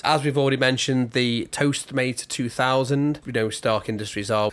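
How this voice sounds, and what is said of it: Scouse accent. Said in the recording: “someone with a Scouse accent trying to say something French”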